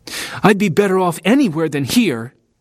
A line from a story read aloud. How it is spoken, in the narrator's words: snapped